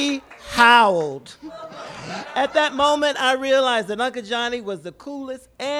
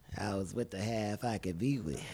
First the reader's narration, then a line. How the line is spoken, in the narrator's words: Not to be undone, he coolly replied